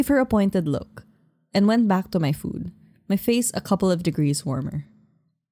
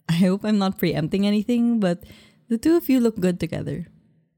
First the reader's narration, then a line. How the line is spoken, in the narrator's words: Then she giggled before adding